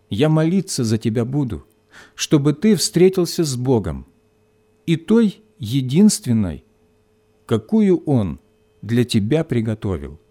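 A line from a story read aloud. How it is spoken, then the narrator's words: Quiet. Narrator (Russian): Вера тихо добавила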